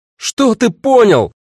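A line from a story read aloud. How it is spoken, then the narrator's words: Shout. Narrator (Russian): закричала Агата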